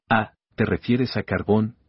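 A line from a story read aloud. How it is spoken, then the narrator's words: Plain. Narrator (Spanish): dijo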